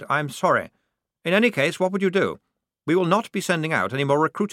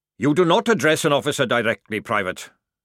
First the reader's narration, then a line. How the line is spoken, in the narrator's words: snapped Jackrum